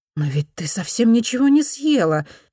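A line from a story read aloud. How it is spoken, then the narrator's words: Exclaimed. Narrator (Russian): воскликнула миссис Джеймс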